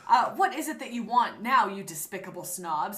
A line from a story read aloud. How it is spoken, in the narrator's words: He asked angrily